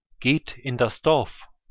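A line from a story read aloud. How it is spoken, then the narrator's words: Plain. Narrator (German): sagte er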